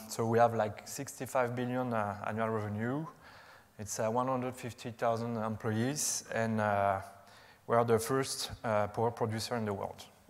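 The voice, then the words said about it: French accent. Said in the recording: “You can recognize my French accent, probably.”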